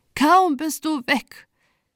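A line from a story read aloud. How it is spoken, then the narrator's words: Sobbing speech. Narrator (German): sagte sie mit Schluchzen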